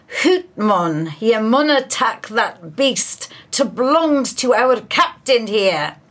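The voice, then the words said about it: Put-on Scottish accent. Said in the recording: “I do apologise for my Scottish accent”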